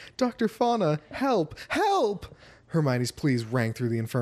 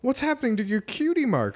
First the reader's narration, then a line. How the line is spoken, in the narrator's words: she exclaimed